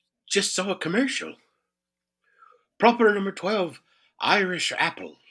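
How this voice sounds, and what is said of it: Usual voice. Nothing is said of it.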